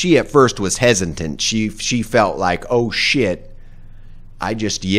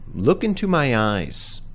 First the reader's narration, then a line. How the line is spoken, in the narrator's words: God, the judge in this experience, very calmly said